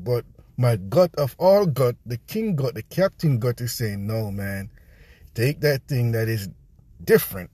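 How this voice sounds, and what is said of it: Jamaican accent. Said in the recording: “my Jamaican accent just kicking”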